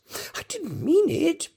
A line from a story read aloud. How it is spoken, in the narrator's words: pleaded poor Alice